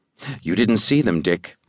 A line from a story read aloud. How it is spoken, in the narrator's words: whispered